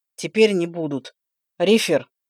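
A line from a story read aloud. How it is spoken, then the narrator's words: Through gritted teeth. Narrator (Russian): сквозь зубы процедил ректор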